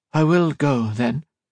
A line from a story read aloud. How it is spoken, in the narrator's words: she said